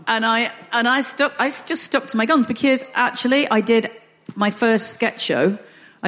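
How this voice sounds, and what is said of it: Northern English accent. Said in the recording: “because I'm Northern ... I'm quite happy with a Northern accent.”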